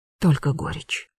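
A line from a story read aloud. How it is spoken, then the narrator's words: Queen's whisper. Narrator (Russian): прошептала королева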